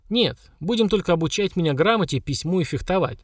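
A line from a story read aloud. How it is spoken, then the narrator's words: Dry evasive reply. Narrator (Russian): сухо ответила Лера, уходя от ответа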